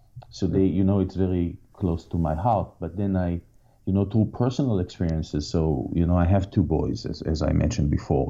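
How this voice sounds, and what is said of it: Israeli-accented English. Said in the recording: “I have some family in Israel. You can probably hear from my accent”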